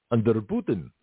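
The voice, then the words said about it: Bad put-on Russian accent. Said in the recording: “as I do really bad the Russian accent.”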